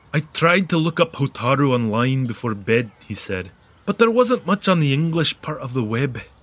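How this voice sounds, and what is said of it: Imitates another person's accent. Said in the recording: “take another stab at Callum's accent ... Not a bad Callum. Not bad at all.”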